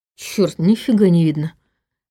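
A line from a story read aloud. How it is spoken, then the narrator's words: Grumbling under breath. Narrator (Russian): ворчал Иван себе под нос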